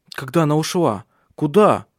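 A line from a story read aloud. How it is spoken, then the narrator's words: Exclaiming. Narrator (Russian): воскликнул Ари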